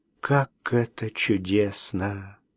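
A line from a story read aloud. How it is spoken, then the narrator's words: Sighing woman. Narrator (Russian): вздохнула она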